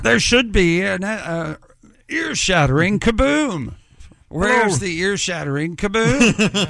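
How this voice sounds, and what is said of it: Cartoon Martian character voice. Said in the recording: “Can you do the Mars accent made famous by Marvin the Martian and the Bugs Bunny cartoons? ... That's the Mars accent”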